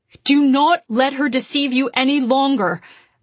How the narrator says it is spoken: shouted at the ever-gathering crowd

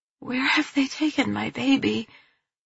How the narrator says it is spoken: I ask weakly, the words tired and paltry, my mouth like cotton

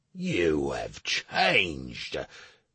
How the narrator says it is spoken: Slate spat

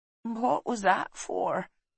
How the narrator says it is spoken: she asked sleepily

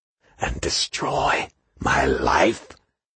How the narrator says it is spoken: lowering his voice to whisper

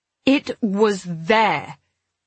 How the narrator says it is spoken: I said angrily

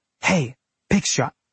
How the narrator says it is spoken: Elliot whispered

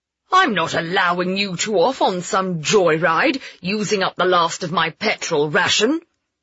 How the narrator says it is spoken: he bellowed

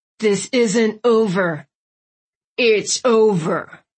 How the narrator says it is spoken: Chief Terry growled

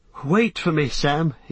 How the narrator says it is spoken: he stammered

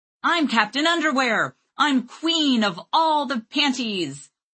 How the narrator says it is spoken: Lane shouting

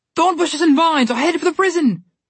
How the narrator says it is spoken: one shouted

